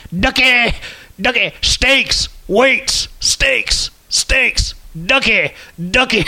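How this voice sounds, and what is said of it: Imitates another person's voice. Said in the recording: “That's my impression of the Heavy Machinery promo video.”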